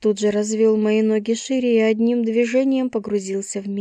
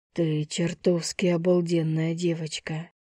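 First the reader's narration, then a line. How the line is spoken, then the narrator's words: Breathless exhale. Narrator (Russian): Выдохнул он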